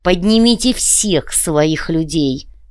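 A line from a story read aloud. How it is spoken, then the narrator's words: Hissing. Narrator (Russian): прошипел Балдер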